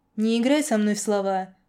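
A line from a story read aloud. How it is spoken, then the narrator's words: Snorting. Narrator (Russian): хмыкнул я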